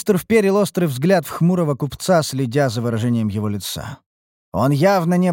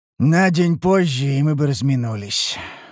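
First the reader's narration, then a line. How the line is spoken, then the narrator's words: Sighing. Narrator (Russian): вздохнул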